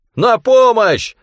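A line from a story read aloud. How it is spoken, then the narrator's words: Yelling. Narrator (Russian): завопил он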